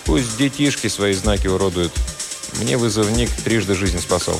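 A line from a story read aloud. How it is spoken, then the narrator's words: Calm reply. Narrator (Russian): Но Игорь спокойно ответил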